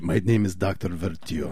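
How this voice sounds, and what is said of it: Put-on Russian accent. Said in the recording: “That was kind of a Russian accent.”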